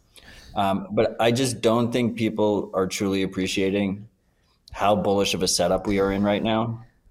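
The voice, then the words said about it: Tired, flat monotone voice. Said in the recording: “I'm a little bit tired, so don't mistake my monotone voice for lack of excitement”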